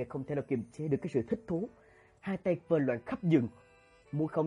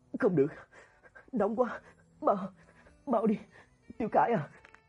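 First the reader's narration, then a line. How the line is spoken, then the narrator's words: Sobbing. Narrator (Vietnamese): Hạ Nghiệt nức nở lên tiếng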